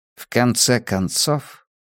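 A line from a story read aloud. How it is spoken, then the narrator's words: Quiet. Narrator (Russian): негромко проговорил Хьюиш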